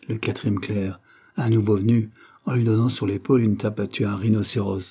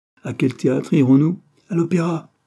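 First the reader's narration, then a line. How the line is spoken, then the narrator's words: Exclaimed. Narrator (French): s'écria le principal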